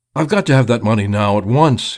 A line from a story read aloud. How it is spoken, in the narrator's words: cried incoherently